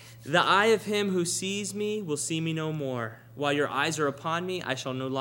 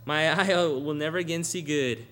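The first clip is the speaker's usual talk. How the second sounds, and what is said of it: Texan accent. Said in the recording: “He kind of sounds Texan right there.”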